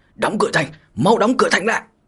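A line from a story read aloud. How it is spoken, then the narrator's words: Frantic shouting while running. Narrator (Vietnamese): vừa chạy vừa điên cuồng lớn tiếng thét dài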